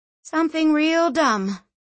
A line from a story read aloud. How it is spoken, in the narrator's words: she sighed